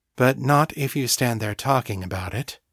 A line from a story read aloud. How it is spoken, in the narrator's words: Fiona said, her voice flat